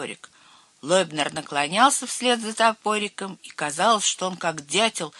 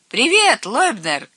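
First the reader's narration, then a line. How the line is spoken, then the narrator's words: Shout. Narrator (Russian): крикнул Херби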